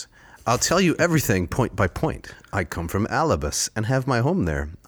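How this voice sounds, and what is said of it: Character voice for Odysseus. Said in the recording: “this is in my Odysseus voice.”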